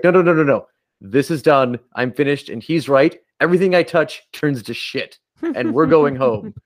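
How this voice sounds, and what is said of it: Slightly angry video-game character impression. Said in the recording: “my best Nathan Drake impression. ... just me being a little angry and not actually sounding like Nathan Drake”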